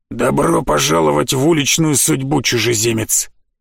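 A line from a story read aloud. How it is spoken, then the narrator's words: Rough hoarse greeting. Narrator (Russian): Поприветствовала она, и ее голос оказался грубым и хриплым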